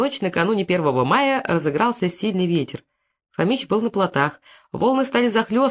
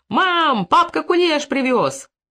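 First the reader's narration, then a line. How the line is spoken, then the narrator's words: Children shouting from afar. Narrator (Russian): неслись табунком его чада, и, завидев свою избу, еще и издали кричали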